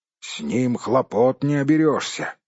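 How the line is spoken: Grumbling dwarf. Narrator (Russian): проворчал кто-то из гномов

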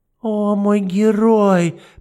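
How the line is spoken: Cooing. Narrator (Russian): проворковала Матильда

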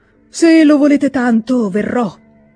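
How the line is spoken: Sighing, then speaking. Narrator (Italian): disse dopo aver sospirato

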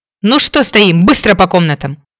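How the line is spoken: Harsh bark. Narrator (Russian): Рявкнула

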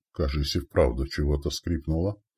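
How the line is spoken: Mutter. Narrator (Russian): пробормотал Елец

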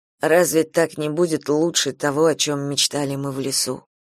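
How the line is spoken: Muttered. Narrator (Russian): пробормотал он

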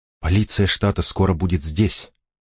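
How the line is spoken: Whispering. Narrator (Russian): прошептала Элис

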